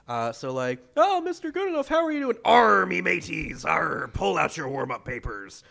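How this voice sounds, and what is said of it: Pirate voice. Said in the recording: “talking like a pirate”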